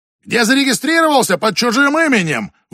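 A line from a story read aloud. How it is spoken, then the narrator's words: Shouted from audience. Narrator (Russian): выкрикнул кто-то из зала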